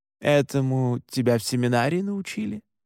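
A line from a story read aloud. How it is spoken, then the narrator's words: Mocking question. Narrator (Russian): насмешливо спросил Александр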